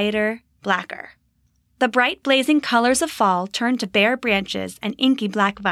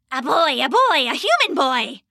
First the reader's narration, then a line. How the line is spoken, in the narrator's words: one screeched